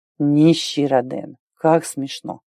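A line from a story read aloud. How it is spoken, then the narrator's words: Drawling, venomously ironic. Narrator (Russian): протянул князь, не скрывая ядовитой иронии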